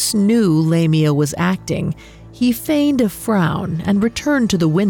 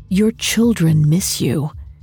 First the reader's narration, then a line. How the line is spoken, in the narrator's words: Lamia whispered